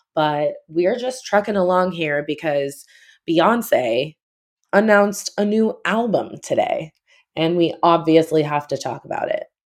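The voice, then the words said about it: Unwell, unpleasant-sounding voice. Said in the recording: “I feel shitty ... my voice sounds even more unpleasant than usual”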